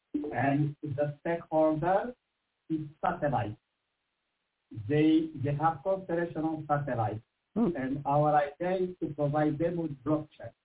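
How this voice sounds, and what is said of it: French-accented English. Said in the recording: “I apologize by accent. I have a startup in Paris, in France... My accent may default you.”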